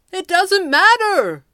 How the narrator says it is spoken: the Red Panda called triumphantly

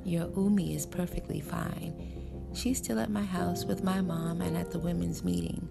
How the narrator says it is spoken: She smiled calmly and said

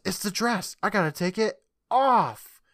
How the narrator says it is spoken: she yells

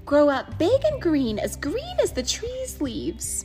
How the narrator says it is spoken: she called to her little yellow babies

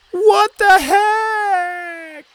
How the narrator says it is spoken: She shouted downstream

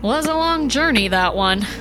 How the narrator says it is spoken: Juan said, his voice strange

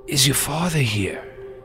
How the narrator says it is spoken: he says, in a weak voice

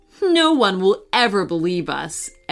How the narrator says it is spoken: Emily said with a laugh

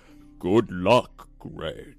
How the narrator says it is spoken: say in a, in the biggest voice I could make

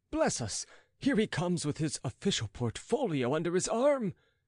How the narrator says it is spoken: exclaimed the master of ceremonies aghast

